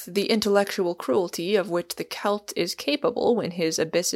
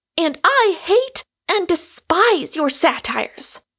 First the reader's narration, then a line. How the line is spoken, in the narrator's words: cried Rosamond Hunt, letting loose her whole forcible female personality like a cyclone, and speaking every word to wound